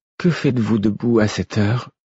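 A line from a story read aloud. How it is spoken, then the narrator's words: Weary tone. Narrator (French): fit-elle d'un ton las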